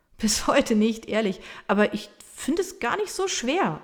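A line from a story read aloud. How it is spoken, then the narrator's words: Laughing reply. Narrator (German): erwidert er lachend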